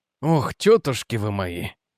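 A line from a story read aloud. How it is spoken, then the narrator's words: Mutter. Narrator (Russian): пробормотал он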